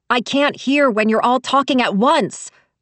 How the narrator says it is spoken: shouted

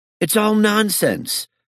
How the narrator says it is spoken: said angrily

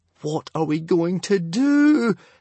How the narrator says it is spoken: Hiccup wailed, in despair

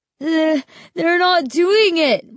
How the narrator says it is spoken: Mark wailed

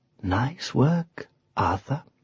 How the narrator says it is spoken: she said softly

